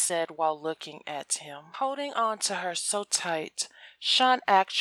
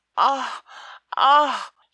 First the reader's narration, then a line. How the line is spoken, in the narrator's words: Sean groans loud